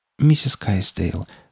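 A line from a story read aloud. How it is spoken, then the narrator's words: Soft insinuating tone. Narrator (Russian): вкрадчиво произнесла Скалли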